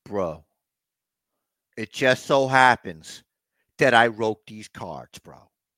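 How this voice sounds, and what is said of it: Imitates another person's voice. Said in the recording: “I was just trying to do like a bad impersonation ... It was a very good bad impersonation”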